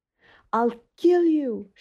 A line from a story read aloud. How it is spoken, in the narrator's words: she screamed